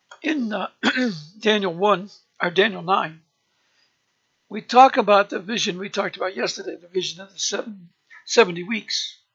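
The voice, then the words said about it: Hoarse voice. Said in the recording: “excuse me for my voice, it's very hoarse tonight”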